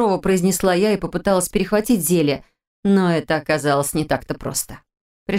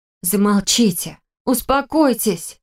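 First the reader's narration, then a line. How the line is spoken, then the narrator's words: Pleading cry drowned by noise. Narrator (Russian): взмолилась я, но мой возглас потонул в общем гамме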